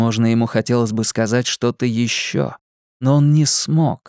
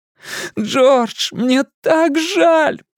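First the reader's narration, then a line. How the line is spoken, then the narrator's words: Shouting through tears. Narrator (Russian): прокричал сквозь слезы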